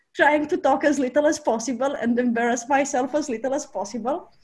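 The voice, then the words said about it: Non-native English accent. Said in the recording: “my English was a lot worse, and my accent was even sicker than it's now”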